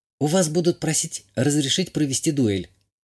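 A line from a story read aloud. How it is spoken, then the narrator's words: Whisper. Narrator (Russian): шепнула Азалия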